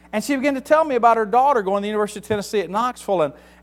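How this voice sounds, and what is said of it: Southern US accent. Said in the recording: “are you from the South? ... That's where I get my accent. ... I'm from the South. I'm from Tennessee.”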